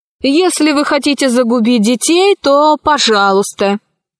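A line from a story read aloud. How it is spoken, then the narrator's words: Rude reply. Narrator (Russian): грубо ответила Кора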